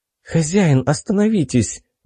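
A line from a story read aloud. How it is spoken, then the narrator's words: Sudden pleading. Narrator (Russian): вдруг взмолилась Фема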